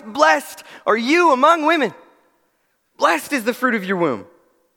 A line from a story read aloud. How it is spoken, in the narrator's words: she exclaims in a loud voice